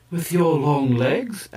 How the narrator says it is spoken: added the pretty pair of High Kai laughingly

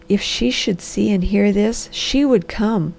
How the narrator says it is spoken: he said softly

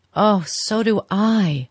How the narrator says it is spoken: she cried with a deep breath of relief

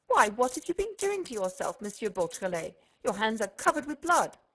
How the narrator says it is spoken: the magistrate exclaimed

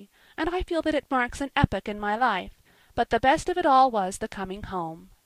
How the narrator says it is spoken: she concluded happily

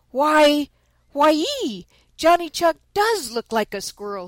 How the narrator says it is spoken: exclaimed

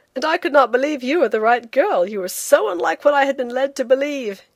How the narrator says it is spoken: he said with a laugh, in a burst of confidence

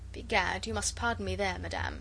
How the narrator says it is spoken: he protested coldly

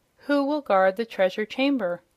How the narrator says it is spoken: exclaimed the surprised Jimfred

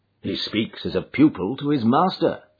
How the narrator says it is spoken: said I

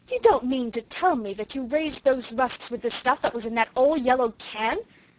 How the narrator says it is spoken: she exclaimed

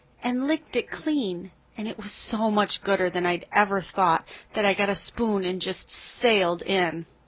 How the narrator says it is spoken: Anne groaned

